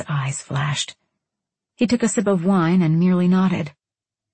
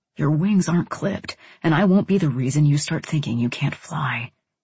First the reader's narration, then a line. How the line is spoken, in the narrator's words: he whispered